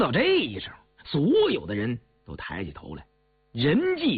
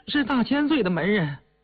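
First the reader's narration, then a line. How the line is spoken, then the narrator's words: Trembling old man. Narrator (Chinese): 那老头吃这么一下，口齿伶俐了些，颤声地说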